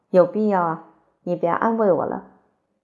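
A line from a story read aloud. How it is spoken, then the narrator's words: Sighing, firm. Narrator (Chinese): 于顺嫂又叹口气，坚决地说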